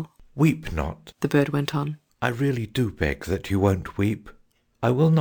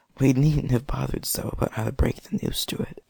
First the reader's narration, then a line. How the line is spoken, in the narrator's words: whispered Cyril